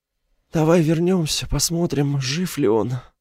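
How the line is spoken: Breathless exhale. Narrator (Russian): выдохнул Лофтинг

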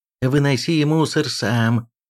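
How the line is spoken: Moaning. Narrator (Russian): застонал Киприан

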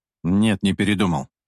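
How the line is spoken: Cold reply. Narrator (Russian): холодно ответил Игорь

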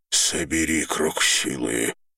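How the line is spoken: Hoarse rasp. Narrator (Russian): прохрипел Дор

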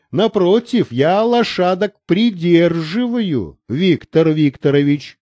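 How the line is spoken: Plain. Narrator (Russian): ответил он

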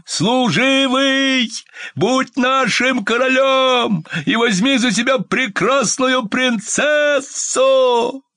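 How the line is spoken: Shouting. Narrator (Russian): Солдаты ... все 3 собаки ... кричали

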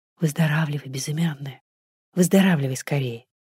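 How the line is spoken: Quiet. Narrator (Russian): сказала тихонько

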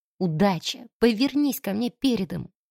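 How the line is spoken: Whispered under breath. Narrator (Russian): шепнула себе под нос

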